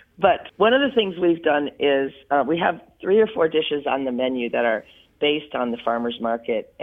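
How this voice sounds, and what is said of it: Hoarse voice. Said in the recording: “my voice is hoarse, because I've been working doubles for three weeks in a row and screaming a lot... Not screaming, just talking a lot.”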